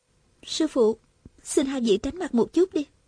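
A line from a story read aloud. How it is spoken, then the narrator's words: Soft woman's voice. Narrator (Vietnamese): nàng khẽ bảo Viên Thừa Chí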